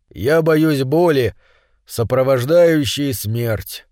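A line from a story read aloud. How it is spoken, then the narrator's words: Plain. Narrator (Russian): сказал он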